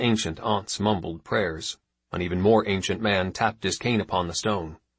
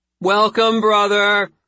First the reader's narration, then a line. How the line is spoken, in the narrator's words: they screamed, impassive, obviously coached